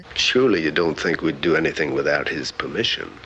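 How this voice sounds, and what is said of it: Southern plantation-owner accent. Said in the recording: “Alex Cord's accent as Dr. Sam Marlowe? Because he was like straight up plantation owning, like, my darling. ... it's just his accent”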